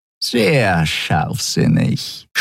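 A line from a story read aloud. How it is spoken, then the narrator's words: Purred close to ear. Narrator (German): schnurrte Shi'ar dicht neben seinem Ohr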